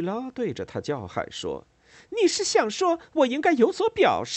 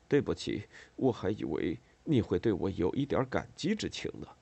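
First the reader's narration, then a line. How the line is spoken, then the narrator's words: Awkward muttering with laugh. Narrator (Chinese): 很尴尬的笑了一下，嘟囔着说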